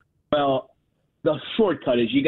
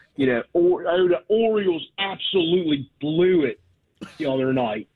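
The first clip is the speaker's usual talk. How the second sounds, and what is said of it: Exaggerated Baltimore accent, hard O vowels. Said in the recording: “you do a perfect one ... Baltimore accent ... you got to hit the O real hard ... you got to muddy up your vowels”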